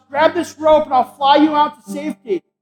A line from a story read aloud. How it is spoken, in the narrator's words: the pilot leans out, and he shouts